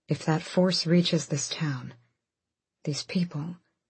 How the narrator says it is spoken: Dorian said quietly

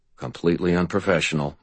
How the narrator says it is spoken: muttered Martin

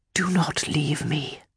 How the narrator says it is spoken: he whispered

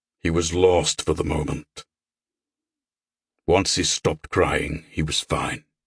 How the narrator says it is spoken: Carnegie rumbled

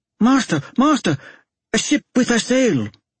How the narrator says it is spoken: On a sudden the boy cried out

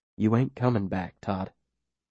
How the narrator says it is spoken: Ben says quietly

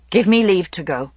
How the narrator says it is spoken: he said roughly

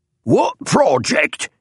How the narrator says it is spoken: shouted a fat man

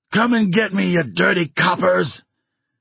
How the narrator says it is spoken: Mad Dog, his face twisted with defiance, although his brow is greased with sweat, screams out

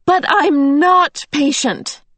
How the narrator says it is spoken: Meg cried passionately

